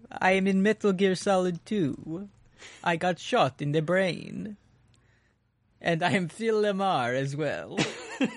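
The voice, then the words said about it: Vampire voice, Adam Sandler's Dracula. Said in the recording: “we can do the voice of a vampire ... we can do Adam Sandler, Hotel Transylvania”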